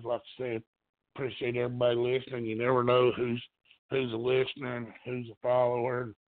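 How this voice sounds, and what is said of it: Strained voice, nearly lost. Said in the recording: “I'm about to lose my voice. I've been coughing a lot”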